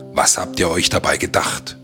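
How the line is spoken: Growled. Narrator (German): knurrte Nanook

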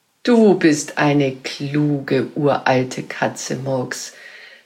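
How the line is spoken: Plain. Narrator (German): sagte die Großmutter

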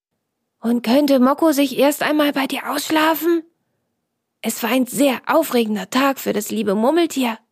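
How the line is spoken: Whispered addition. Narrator (German): Franz ergänzte flüsternd

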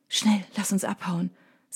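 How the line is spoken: Quiet. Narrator (German): sagt leise

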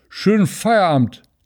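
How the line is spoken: Slurred drunkenly after him. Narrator (German): lallte Tünnes ihm noch hinterher

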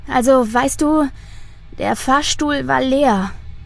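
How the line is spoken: Tired, smiling. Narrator (German): sagt sie schließlich und lächelt dabei müde

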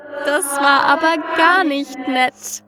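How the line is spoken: Amused yet wicked giggle. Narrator (German): kicherte das Ding belustigt und böse zugleich

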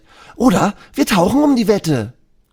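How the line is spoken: Shouting. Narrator (German): Elisa schreit

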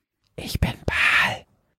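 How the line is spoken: Sudden whisper in ear. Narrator (German): flüsterte ihr es plötzlich von links ins Ohr

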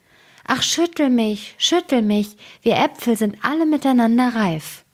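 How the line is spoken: Apple tree calling. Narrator (German): Der hing voll Äpfel und rief zu ihm

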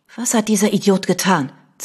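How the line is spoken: Hissed. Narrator (German): zischte Vanessa

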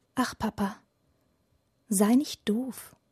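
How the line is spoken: Child whispering. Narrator (German): flüstert das Kind

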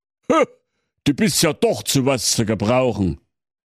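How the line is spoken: Grateful exclamation. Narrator (German): rief der Weihnachtsmann dankbar

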